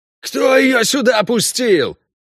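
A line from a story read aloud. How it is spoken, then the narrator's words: Yelling again. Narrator (Russian): снова заорал эльф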